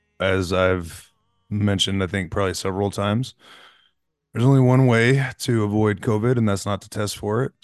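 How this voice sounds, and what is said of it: Hoarse, raspy voice. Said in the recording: “A little hoarse, a little raspy. ... the sound of my voice. ... You won't get the dulcet tones that you're accustomed to from me.”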